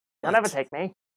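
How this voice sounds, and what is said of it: John Mulaney impression. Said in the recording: “Trying to do a John Mulaney impression... That was my impression of him not wanting to rehab”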